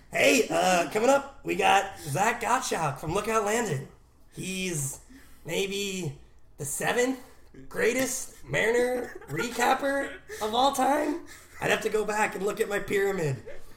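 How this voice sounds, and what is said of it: Bill Simmons impression. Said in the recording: “do a Bill Simmons voice”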